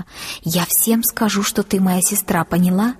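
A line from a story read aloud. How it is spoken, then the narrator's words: Secretive whisper. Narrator (Russian): она шепотом, чтобы никто не услышал, сказала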